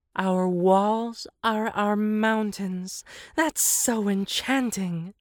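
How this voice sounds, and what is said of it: Dreamy breathy voice. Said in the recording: “exhaled the hippo in a dreamy voice.”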